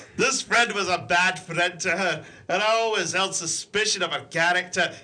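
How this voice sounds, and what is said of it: Put-on accent while reading. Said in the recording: “Now you see why I've got this accent.”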